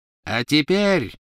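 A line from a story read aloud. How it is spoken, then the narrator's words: Triumphant ringing proclamation. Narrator (Russian): победно звенящим голосом провозгласила она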